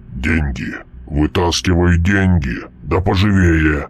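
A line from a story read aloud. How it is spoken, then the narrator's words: Growled. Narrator (Russian): прорычал Мальп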